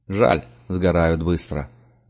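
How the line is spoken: Grumbled. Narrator (Russian): буркнул Парт, отводя глаза

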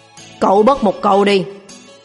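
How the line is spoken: Low angry growl. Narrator (Vietnamese): Trần Mặc sầm mặt gầm nhẹ

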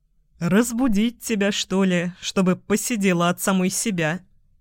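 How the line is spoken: Laughing shortly. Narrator (Russian): хохотнул я

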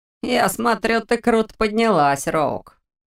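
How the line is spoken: Caustic remark. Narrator (Russian): Едким тоном заметил тот

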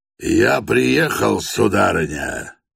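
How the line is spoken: Booming, trumpet-like voice. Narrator (Russian): прогремел был он, как в трубу

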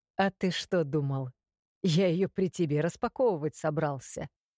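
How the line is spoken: Smirking near ear. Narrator (Russian): хмыкнули у меня над ухом

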